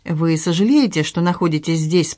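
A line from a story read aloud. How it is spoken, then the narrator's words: Plain. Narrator (Russian): спросила я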